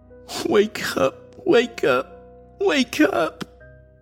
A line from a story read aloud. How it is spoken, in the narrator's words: Jamie's voice whimpered inside his head